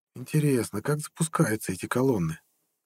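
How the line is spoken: Quiet thoughtful mutter. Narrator (Russian): тихо пробормотал задумчивый принц

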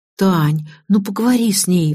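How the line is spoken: Pleading. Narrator (Russian): взмолилась Лиза

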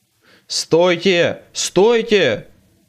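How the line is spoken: Yelling leader. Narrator (Russian): вопил вожак

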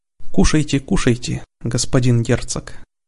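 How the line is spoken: Gentle coaxing. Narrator (Russian): ласково предложил Родерик

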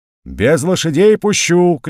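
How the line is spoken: Shouting. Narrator (Russian): кричал он

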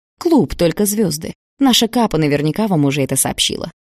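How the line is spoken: Plain. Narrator (Russian): сказал он

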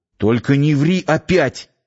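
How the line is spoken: Nearly shouted aloud. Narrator (Russian): едва не крикнул вслух

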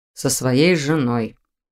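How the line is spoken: Gloomy. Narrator (Russian): мрачно дополнил Виктор

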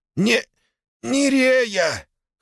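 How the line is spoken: Strained wheeze while struggling. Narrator (Russian): хрипит, тщетно пытаясь выбраться из схватки

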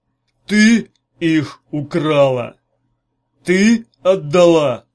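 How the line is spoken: Growling. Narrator (Russian): снова прорычал он

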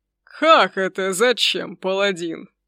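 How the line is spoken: Eager after laughing. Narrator (Russian): Волю насмеявшись, кинулся рассказывать дракон

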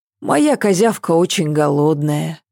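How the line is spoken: Sighing. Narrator (Russian): вздохнула Ася

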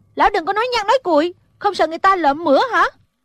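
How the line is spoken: Unable to hold back, shouting. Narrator (Vietnamese): Thủy Sinh nghe lão nói vậy, không nhịn được quát lên

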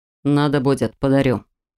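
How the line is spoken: Dragon's growl. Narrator (Russian): рыкнул дракон

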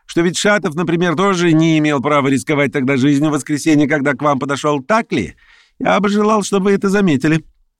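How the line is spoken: Rapid shouting. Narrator (Russian): прокричал он скороговоркой

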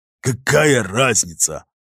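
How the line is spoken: Angry growl. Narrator (Russian): злобно прорычал капитан, вспомнивший, что его разбудили

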